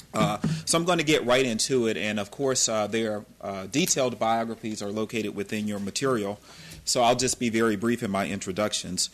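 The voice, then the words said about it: Southern American accent. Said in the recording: “my southern accent ... I am really an Atlantan”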